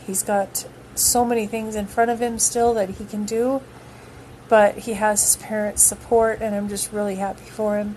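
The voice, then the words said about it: Wavering voice, holding back tears. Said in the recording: “I'm trying not to cry, so that's why my voice is kind of coming and going”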